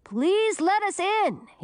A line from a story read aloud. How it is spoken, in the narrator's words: he shouted